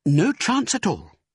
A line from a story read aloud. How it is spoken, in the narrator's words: snapped Mrs